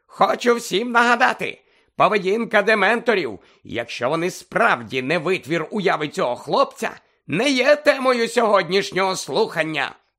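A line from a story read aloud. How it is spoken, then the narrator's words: Exclaimed. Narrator (Ukrainian): вигукнув Фадж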